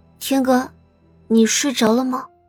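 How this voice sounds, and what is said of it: Soft, quiet calling voice. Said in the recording (Chinese): “小声的唤了两声”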